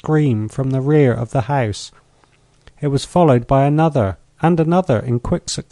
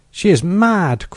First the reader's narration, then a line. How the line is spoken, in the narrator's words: cried Ferralti